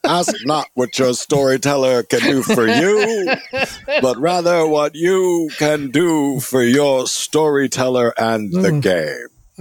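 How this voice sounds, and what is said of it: Imitates another person's voice. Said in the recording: “to do a JFK impression”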